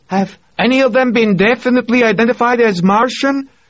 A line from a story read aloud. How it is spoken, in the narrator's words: Ioana yelled back at him